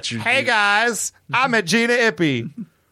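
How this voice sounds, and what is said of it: Imitates another person's voice. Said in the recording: “Was that my Gina impression?”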